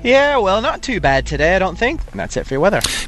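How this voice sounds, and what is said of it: Texan accent. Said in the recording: “Is that a Texan accent? ... It is a Texan accent.”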